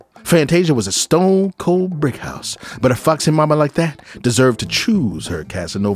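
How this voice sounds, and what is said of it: 1970s blaxploitation jive character voice. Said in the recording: “talk like a Truck Turner movie... you sound like Shaft had a baby with Superfly”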